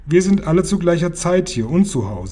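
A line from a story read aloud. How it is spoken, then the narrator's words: Plain. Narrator (German): sagte Babette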